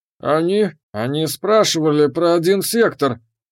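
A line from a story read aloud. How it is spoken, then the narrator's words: Forced out reluctantly. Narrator (Russian): выдавил из себя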